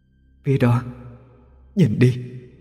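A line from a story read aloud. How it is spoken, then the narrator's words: Soft voice near ear. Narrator (Vietnamese): một giọng nói khẽ vang lên bên tai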